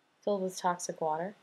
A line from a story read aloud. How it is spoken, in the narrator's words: she asks softly